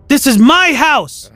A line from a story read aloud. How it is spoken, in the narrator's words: I screamed